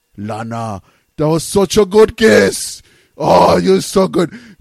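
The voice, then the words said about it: Poor imitation of another person's accent. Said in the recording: “That's a horrible Rusev impersonation. That's not even close to being his accent.”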